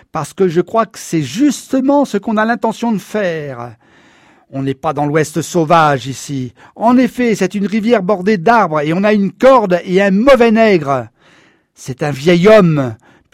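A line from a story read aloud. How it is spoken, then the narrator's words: Sneering. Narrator (French): ricana la Nation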